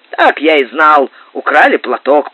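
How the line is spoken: Grumble. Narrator (Russian): проворчал капитан

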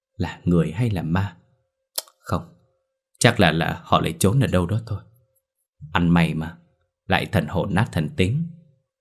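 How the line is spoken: Muttering. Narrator (Vietnamese): Hoàng lẩm bẩm

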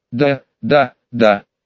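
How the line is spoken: Barely squeezed out. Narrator (Russian): еле выдавил

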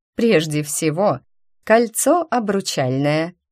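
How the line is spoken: Explaining after laughter. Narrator (Russian): отсмеявшись, начала объяснять драконья мама

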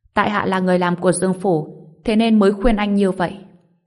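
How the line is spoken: Laughing. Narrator (Vietnamese): Người đó bật cười

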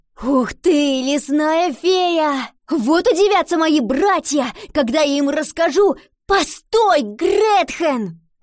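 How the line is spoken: Shouted. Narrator (Russian): крикнула Ива

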